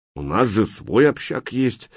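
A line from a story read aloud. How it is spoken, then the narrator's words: Displeased grumbling. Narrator (Russian): недовольно пробурчал бомба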